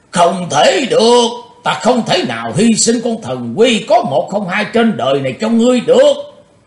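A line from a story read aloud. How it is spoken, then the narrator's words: Roaring old man. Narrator (Vietnamese): Ông lão gầm lên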